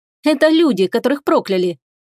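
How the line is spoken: Ringing, blasphemously cheerful voice. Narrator (Russian): звонкий голос Теруми звучал кощунственно весело

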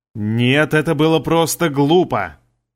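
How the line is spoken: Angry reply. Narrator (Russian): Зло ответил, переживая за такую бессмысленную трату ценного продукта

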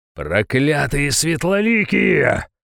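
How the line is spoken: Menacing growl. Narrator (Russian): прорычал я недобро

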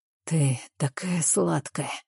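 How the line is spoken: Hoarse with desire. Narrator (Russian): Его голос хриплый от желания

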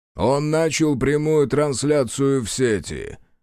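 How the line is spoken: Loud announcement. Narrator (Russian): громко объявил Арчер

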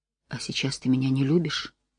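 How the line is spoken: Quiet question. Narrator (Russian): тихо спросил Давид

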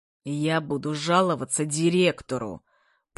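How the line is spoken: Angry hiss. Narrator (Russian): прошипел он со злобой

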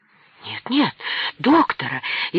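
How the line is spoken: Frightened cry. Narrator (Russian): испуганно вскричала Наталья Николаевна

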